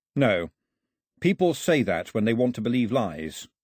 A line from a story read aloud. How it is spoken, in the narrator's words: Mao said flatly